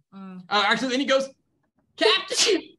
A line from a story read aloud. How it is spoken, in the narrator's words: yells that out really to the best of his ability